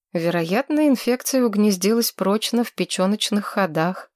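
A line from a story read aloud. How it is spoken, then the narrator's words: Plain. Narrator (Russian): сказала доктор Суни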